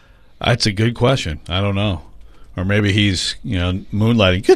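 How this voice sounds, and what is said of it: Usual voice. Nothing is said of it.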